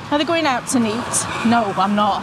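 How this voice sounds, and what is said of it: Broad South Yorkshire accent. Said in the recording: “it is a really particular accent ... Probably the South Yorkshire accent”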